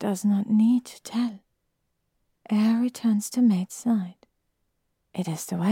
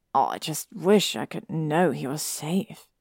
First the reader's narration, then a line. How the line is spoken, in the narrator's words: Harry murmured